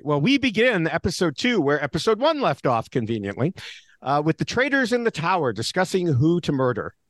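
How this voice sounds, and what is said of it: Midwestern American accent. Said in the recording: “my, you know, Midwest USA accent”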